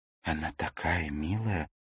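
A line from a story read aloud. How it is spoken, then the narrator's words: Whisper. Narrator (Russian): прошептала Ракель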